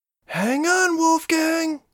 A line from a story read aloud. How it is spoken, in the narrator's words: she shouted